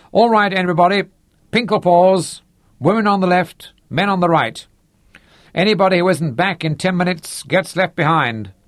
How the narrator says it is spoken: shouted

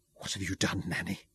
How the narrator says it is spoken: whispered, chilled and stricken with despair

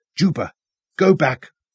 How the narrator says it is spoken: Robin snapped at the child

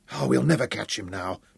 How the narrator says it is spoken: Tom gasped

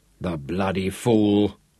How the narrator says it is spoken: he growled

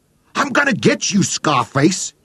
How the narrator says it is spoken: he giggled

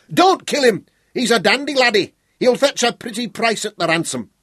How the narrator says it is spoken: Cumbrae shouted

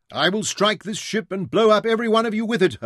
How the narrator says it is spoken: her father screamed again

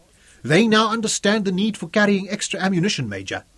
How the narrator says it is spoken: Jan Schroot reported to Zuga cheerfully

